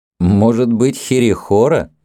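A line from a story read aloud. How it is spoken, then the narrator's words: Laughing. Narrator (Russian): рассмеялся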